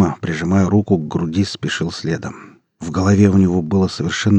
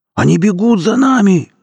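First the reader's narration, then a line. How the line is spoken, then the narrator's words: Yelling. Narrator (Russian): завопил сапог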